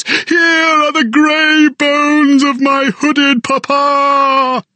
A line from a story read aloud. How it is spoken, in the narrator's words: he wept and screamed at the hateful goshawks